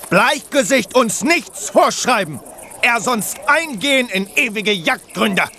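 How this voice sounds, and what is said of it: Exaggerated put-on stereotyped accent. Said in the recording (German): “wieso redet ihr mit diesem lächerlichen Akzent? ... diesen Ureinwohner-Akzent sprechen, damit es die Touristen schön folkloristisch haben”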